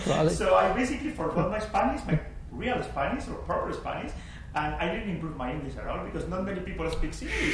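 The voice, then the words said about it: Spanish-accented English, mixed accent. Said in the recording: “my weird accent”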